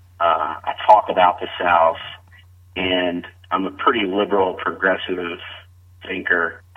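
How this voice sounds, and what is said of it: Slight Southern US accent. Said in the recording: “I'm a Southerner, got a little bit of a Southern accent.”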